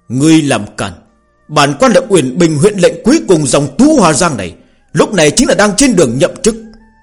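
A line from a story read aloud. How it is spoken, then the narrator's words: Loud shouting. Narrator (Vietnamese): Nam nhân hét to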